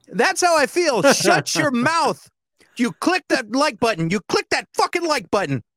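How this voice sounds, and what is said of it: Imitates another person's voice. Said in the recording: “my Edward Kane impression”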